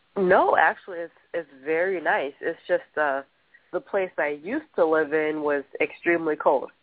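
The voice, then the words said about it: Nasal, congested sick voice. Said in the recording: “I actually could hear it. You sound nasal.”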